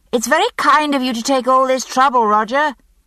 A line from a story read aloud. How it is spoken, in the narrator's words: I said, raising my voice to be heard above the echoing bridge and the river's rush